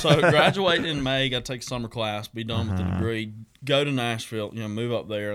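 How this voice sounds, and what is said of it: Deep radio voice. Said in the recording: “You got that deep, honestly, I hate to say radio voice, but like, you got a nice voice. ... Good old radio voice. ... Good talking voice.”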